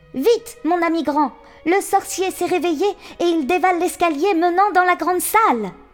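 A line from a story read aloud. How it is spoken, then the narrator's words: Exclaiming. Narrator (French): s'écria-t-il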